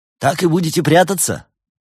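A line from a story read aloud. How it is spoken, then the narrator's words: Loud question. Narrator (Russian): громко поинтересовался барс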